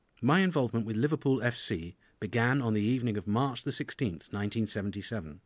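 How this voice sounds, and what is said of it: Cockney London accent. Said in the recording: “as you can tell immediately from my accent, I am in fact a Cockney”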